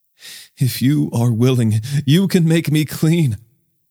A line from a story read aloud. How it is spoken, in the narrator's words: a man with leprosy begged him